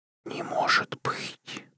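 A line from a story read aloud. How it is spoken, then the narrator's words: Whisper. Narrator (Russian): прошептала она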